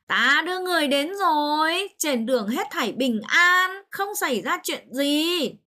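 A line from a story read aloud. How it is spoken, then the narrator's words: Joyful, elated. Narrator (Vietnamese): Mục Thanh vui mừng hớn hở, nói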